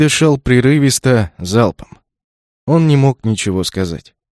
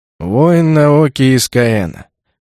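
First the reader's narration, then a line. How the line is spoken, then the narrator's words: Bored voice. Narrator (Russian): скучным голосом произнес Масаона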